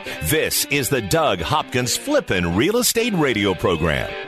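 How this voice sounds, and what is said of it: Deep announcer radio voice. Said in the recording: “that guy's got a radio voice”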